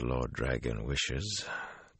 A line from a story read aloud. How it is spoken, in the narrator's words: Taim murmured wryly